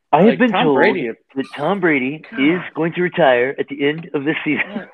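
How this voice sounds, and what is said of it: Imitates another person's voice. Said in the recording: “Schefter impersonation”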